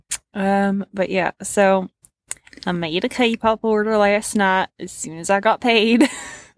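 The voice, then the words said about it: Sudden put-on accent. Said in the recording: “I don't know why I suddenly switched to a fucking accent.”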